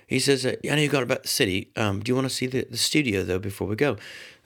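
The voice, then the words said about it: Put-on English accent. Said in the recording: “the worst English accent in the world, what I'm doing right now”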